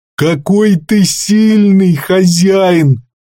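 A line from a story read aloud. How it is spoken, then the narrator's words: Moaned. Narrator (Russian): простонал тот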